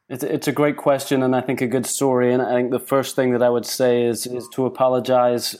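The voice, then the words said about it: Mixed Cockney London accent. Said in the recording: “the accent's a little bit of a mishmash, I am a proper Cockney.”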